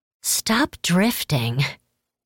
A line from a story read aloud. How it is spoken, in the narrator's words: Kurima hissed